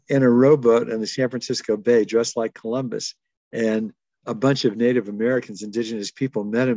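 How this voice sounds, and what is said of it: Usual voice. Nothing is said of it.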